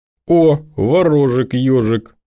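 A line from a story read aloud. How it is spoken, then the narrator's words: Cheerful teasing. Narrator (Russian): весело поддевает Сергуня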